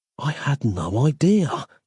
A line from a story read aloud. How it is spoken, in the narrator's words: he gasped, incredulous